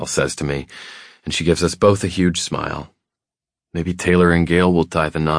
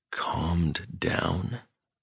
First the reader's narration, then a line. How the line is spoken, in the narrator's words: I whisper